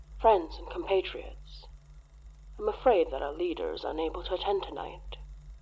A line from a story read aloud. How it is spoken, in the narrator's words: said, in his strangely gentle, strangely kindly voice